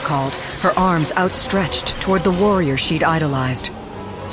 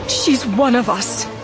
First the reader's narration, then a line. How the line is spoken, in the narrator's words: Siv begged